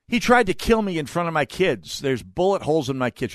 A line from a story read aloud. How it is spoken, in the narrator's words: she yells